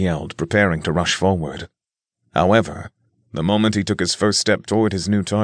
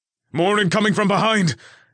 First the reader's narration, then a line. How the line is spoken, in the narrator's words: Alan shouted from where he lay, injured